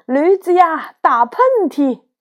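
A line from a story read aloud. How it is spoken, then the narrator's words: Loud shout. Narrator (Chinese): 胖子大喊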